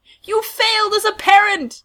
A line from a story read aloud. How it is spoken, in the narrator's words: yells